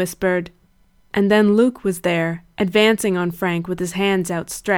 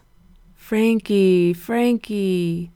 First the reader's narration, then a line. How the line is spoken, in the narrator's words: he cooed in his cracked old voice